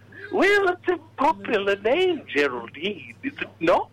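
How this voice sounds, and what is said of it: Disguised character voice. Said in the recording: “your voice is a little different.”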